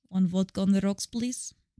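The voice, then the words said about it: Put-on Russian accent. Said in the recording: “I'm a Russian spy walking into a bar ... I was ready with my accent”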